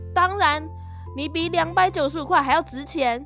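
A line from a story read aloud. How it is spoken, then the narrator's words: Said loudly. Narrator (Chinese): 不过他很快就大声地说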